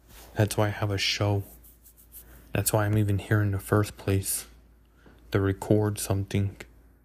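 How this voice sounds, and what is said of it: Smooth, soothing voice. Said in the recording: “my smooth, soothing voice calm you down ... my voice was smoothing, soothing”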